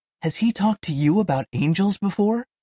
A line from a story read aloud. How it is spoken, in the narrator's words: Sonia whispered